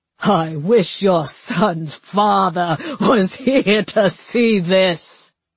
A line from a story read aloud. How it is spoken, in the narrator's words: he said with an evil laugh